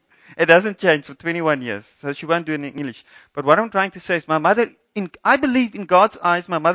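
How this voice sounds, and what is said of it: Usual voice. Nothing is said of it.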